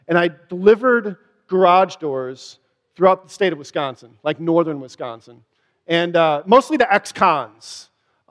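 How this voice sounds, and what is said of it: Wisconsin accent. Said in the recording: “Wisconsin, if you can tell from my accent”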